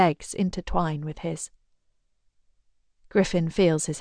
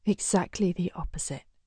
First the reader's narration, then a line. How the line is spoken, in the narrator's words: she whispers